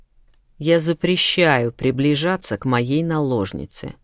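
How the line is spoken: Deliberately calm, chilling voice. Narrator (Russian): нарочито спокойным голосом, от которого по спинам женщин пополз мороз, начал Ахлф

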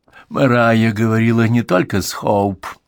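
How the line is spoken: Sad wry chuckle. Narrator (Russian): грустно усмехнулся он

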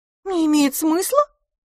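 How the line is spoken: Surprised exclamation. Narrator (Russian): удивленно воскликнула мисс Лафос

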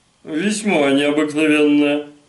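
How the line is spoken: Mocking retort. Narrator (Russian): насмешливо возразил Растиньяк

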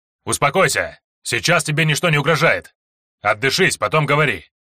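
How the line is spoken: Commanding voice. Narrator (Russian): Командирским голосом отвечал Лексио

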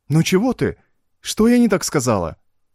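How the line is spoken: Anxious question. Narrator (Russian): взволнованно поинтересовалась она

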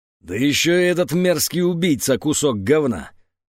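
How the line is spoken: Roar. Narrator (Russian): проревел

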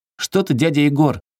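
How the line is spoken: Frightened boy's shout. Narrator (Russian): испуганно крикнул мальчишка

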